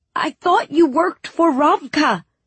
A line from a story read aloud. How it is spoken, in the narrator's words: I said angrily